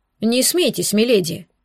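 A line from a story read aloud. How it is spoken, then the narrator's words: Stern elderly woman. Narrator (Russian): строго сказала старая экономка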